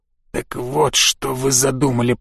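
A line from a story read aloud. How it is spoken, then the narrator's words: Stunned disbelieving mutter. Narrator (Russian): пробормотал он, все еще не в силах поверить своей собственной ужасной догадке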